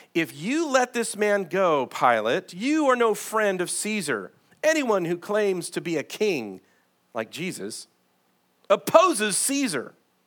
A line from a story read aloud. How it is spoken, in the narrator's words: The Jewish leaders kept shouting